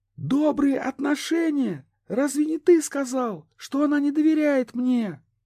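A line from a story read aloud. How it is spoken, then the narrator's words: Crying out. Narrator (Russian): вскрикнула София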